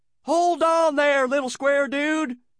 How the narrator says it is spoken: the squirrel cried

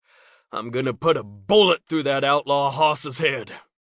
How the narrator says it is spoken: he muttered

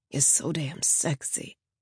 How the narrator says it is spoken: groaned

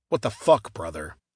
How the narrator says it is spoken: grumbled

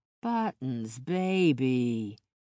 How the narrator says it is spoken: cooed

